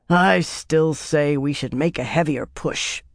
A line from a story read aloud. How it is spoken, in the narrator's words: grumbled drunkenly into his cup